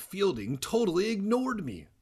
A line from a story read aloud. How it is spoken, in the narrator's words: Sari cried, her face revealing her anger